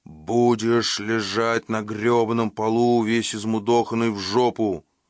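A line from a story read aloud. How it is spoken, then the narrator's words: Loud declaration. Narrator (Russian): Громко объявил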